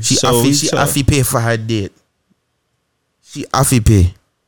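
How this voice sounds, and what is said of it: Put-on African accent. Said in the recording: “That was a Memphis African accent.”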